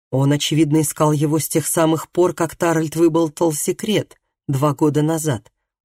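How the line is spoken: Plain. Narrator (Russian): ответил Даг

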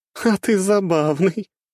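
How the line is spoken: Ringing laughter. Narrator (Russian): она звонко рассмеялась

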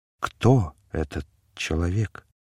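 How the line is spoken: Whisper. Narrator (Russian): Он прошептал

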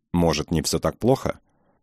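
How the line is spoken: Grateful, pitiful muttering. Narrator (Russian): оба бормотали что-то благодарное и жалостное

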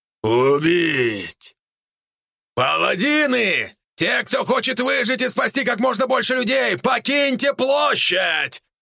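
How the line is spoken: Loud shout. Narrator (Russian): Громко прокричал волк

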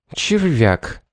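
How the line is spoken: Through gritted teeth. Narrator (Russian): процедила Шарлотта

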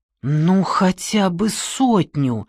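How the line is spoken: Pleading drawl. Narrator (Russian): умоляюще протянул он

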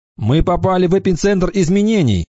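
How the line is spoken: Shouted. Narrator (Russian): закричал Кикаха

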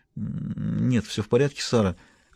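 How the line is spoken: Absent-minded mumble. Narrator (Russian): рассеянно пробормотала Дэви

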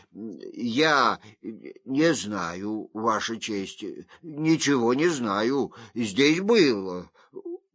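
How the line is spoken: Stammering mumble. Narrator (Russian): тот забормотал, заикаясь

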